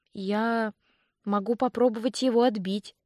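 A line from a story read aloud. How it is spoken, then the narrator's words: Uncertain speech. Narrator (Russian): неуверенно произнесла я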